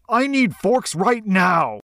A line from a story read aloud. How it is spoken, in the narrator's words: The back-of-house manager kept yelling